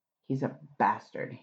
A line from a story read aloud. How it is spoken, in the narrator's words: he said angrily